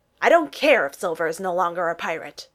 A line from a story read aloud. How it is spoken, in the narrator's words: the mustached pirate snarled